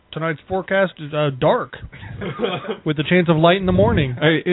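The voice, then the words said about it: Imitated voice as a weatherman. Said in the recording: “my impression of Jack as a weatherman”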